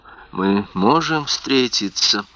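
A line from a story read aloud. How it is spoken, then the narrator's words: Barely audible question. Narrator (Russian): едва слышно спросила мадам Росс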